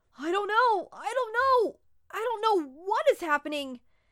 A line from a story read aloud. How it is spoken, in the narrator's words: He let out a little cry as his voice cracked